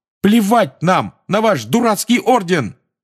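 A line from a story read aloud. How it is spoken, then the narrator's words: Shout. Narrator (Russian): выкрикнул Фред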